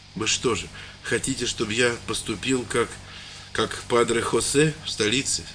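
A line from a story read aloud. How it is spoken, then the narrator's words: Plain. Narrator (Russian): сказал он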